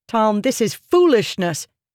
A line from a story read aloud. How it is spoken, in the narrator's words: she snapped